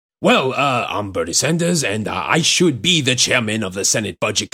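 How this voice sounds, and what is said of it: Imitates another person's voice. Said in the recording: “your Bernie Sanders impression... I'll respond in a Bernie fashion.”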